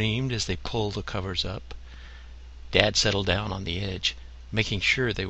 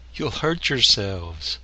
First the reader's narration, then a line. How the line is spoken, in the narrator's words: Dad only laughed as he admonished them